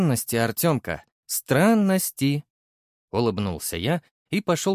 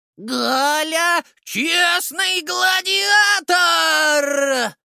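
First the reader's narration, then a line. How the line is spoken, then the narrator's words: Yelling woman. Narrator (Russian): Заорала Галина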